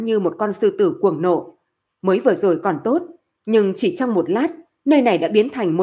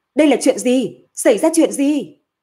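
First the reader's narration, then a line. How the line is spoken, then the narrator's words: Frantic roaring. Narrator (Vietnamese): Hạ Ngọc Long điên cuồng gầm thét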